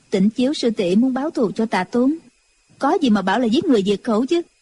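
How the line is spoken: Cold. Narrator (Vietnamese): Chu Chỉ Nhược lạnh lùng nói

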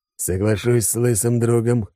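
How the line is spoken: Snort. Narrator (Russian): хмыкнул Алекс

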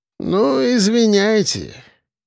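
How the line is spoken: Drawling. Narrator (Russian): протянул Архип

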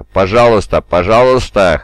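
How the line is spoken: Wheezing. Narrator (Russian): хрипел Джон

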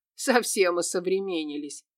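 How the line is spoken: Snorted. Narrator (Russian): фыркнул Кирилл

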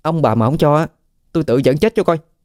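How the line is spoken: Irritated. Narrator (Vietnamese): nó bực bội nói

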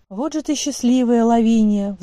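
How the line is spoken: Sighing. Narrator (Russian): вздохнула Денис

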